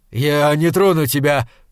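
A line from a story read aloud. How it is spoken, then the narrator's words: Shout. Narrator (Russian): крикнул он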